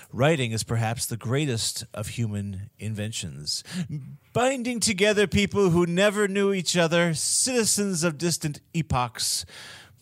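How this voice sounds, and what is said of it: Poor imitation of another person's voice. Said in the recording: “doing a bad Carl Sagan impression”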